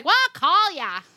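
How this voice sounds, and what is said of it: Poor put-on Long Island accent. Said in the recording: “Long Island accent ... That was a terrible impression”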